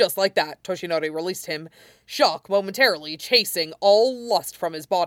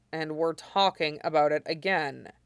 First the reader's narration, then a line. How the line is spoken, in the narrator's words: Aizawa said evenly